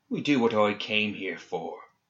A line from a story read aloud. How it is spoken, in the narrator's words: said Seamus, his voice like poison